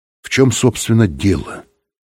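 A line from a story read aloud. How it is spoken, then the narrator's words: Calm. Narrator (Russian): сказал Быков спокойно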